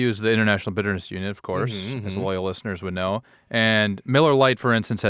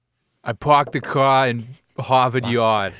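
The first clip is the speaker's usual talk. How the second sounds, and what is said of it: Put-on Boston accent. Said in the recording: “can you do a Boston accent? You want to try one? ... That's pretty good. And you even did it without throwing out an R word”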